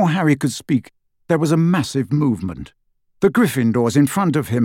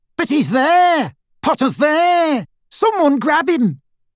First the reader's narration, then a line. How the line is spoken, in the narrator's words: Pansy Parkinson as she raised a shaking arm and screamed